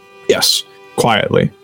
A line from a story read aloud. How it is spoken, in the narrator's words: Bucky mumbles